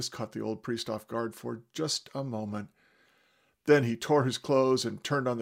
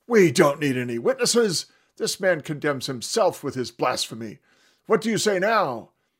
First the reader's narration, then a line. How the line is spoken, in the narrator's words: they all started shouting and condemning him, saying